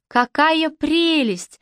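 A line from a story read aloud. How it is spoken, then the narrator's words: Delighted exclamation. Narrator (Russian): воскликнула, совершенно покоренная тем, что все такое красное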